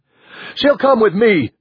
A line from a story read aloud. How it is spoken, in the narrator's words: Bonar shouted